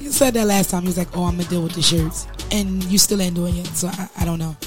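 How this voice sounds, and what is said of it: Hoarse voice. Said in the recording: “I'm still a little hoarse over here”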